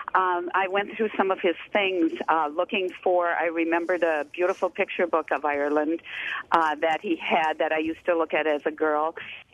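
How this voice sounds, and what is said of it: Teary, emotional voice. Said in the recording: “I'm getting teary here”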